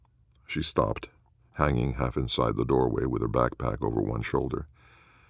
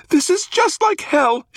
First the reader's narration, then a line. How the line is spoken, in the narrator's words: screamed